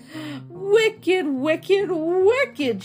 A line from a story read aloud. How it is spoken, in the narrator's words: shouted the old man